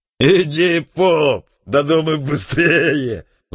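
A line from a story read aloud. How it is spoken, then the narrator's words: Drunken yelling. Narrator (Russian): заорал изрядно захмелевший Крутов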